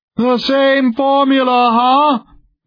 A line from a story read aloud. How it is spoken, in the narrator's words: Van Buskirk roared